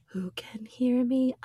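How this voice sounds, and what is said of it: Quiet whispering voice. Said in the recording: “I'm talking quiet, so you have to listen ... I am whispering.”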